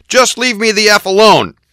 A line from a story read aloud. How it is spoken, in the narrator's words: yelled, pounding his fists on the table